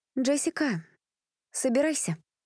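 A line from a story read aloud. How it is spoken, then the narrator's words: Forced calm. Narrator (Russian): спокойно сказала Элизабет, хотя это далось ей нелегко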